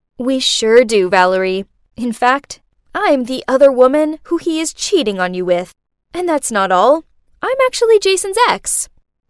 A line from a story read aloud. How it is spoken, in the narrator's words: laughed and said